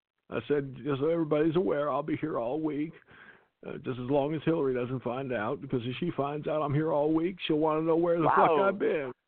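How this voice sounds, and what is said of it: Bill Clinton impression. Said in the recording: “you do that accent so good, they think that was actually Bill talking”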